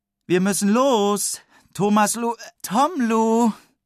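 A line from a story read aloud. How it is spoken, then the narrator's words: Mother calling. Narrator (German): ruft Mama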